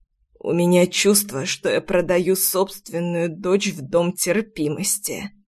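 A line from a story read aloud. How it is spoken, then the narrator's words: Trembling, strained voice. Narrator (Russian): дрожащим голосом выдавил отец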